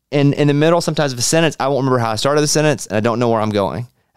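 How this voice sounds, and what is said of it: Tired, worn-out voice. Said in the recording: “my voice is a little burnt out”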